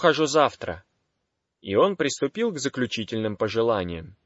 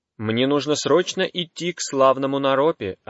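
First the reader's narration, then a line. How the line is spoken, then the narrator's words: Plain. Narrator (Russian): ответил Марпа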